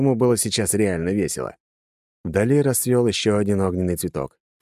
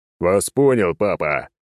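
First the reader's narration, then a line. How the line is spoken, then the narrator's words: Growled. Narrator (Russian): прорычал клоун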